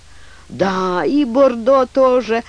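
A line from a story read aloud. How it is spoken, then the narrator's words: Intensely excited exclamation. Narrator (Russian): воскликнул сэр Безил, которого охватило неописуемое волнение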